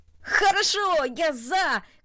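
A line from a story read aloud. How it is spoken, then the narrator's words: Shout. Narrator (Russian): крикнул он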